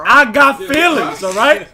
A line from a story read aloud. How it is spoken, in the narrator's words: We cried